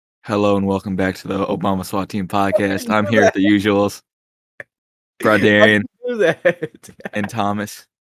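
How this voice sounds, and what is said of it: Unusually deep voice. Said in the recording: “Why do you make such a deep voice? Like, hello?”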